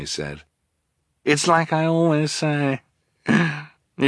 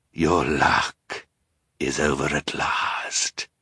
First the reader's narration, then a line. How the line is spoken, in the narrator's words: he said in a terrible voice